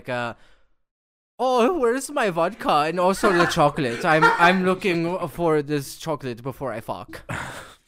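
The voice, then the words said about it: Put-on Russian accent. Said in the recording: “do your best impression of a Russian ... Nailed it.”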